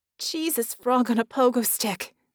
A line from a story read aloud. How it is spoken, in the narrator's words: she gasped